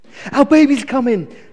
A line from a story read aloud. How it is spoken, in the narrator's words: cried the mother excitedly